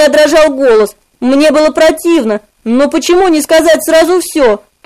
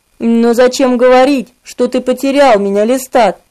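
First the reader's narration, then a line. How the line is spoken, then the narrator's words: Quiet, ardent question. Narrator (Russian): Спросил он тихо, но пылко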